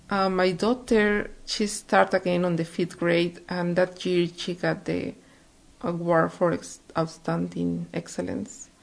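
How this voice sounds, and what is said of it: Deep non-native English accent. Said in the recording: “my English wasn't very good. I know I have a deep accent.”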